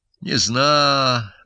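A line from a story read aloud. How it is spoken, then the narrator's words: Sigh. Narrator (Russian): вздохнула она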